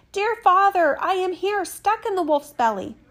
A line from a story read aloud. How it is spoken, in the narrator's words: Tom Thumb he shouted